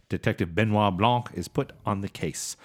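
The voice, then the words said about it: Put-on accent. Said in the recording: “Thank you for the accent.”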